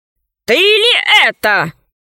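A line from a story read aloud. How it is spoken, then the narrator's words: Booming growl from the sky. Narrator (Russian): зарычал в небе голосище Панченги Мулити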